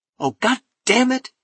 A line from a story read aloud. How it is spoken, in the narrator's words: he cried